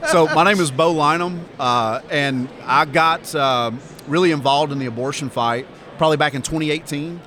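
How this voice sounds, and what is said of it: Southern American Alabama accent. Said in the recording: “I really do sound like this. Okay, I'm from Alabama. I can't help it.”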